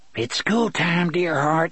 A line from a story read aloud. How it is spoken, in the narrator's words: Gasher whispered